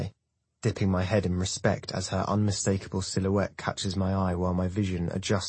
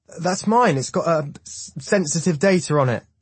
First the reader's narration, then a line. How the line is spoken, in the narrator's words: he cries